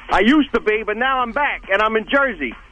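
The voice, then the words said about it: Put-on New Jersey accent. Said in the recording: “New Jersey accent”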